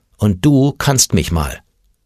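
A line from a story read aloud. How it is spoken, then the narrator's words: Said in a firm voice. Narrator (German): sagte mit fester Stimme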